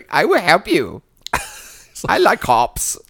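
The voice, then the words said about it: Mimics a strange put-on foreign accent. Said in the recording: “what accent is that?... this Costa Rican by way of Asia, also slightly effeminate maitre d'”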